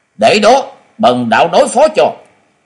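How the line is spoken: Loud shout. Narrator (Vietnamese): Quỳnh Long đạo trưởng lớn tiếng quát to

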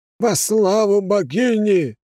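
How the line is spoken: Priest shouting. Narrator (Russian): выкрикнул жрец

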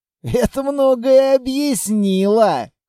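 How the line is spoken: Amused grunt. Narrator (Russian): хмыкнул Литвин

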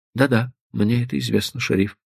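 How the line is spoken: Soft interruption. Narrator (Russian): мягко прервал его Стеджер

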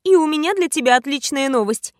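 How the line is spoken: Giggling. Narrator (Russian): хихикнула я

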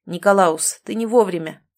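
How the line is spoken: Cold. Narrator (Russian): холодно произнес Ричард

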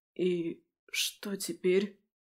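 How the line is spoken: Hoarse, frightened question. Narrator (Russian): Севшим голосом поинтересовался побелевший принц

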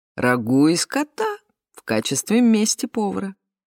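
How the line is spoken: Laughing. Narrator (Russian): рассмеялся он

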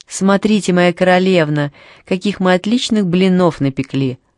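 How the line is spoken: Joyful. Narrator (Russian): радостно сказала Анни

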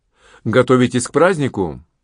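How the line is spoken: Casual natural tone. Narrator (Russian): он самым естественным тоном бросил

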